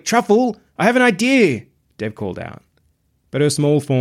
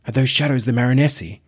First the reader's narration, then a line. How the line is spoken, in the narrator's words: He whispered